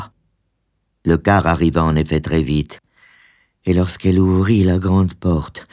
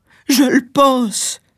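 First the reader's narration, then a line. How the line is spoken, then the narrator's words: Sobbing. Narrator (French): sanglota-t-elle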